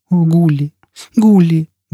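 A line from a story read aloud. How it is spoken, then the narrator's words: Sobbing. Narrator (Russian): Джизбелла всхлипнула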